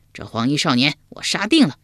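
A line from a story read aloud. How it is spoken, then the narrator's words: Loud voice. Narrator (Chinese): 高声说道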